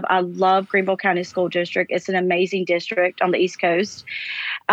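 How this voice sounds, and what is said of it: Noticeable non-local accent. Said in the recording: “My accent stands out. People immediately know that I'm not from here.”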